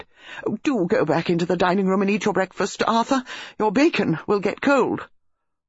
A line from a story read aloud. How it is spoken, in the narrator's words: Bantry exclaimed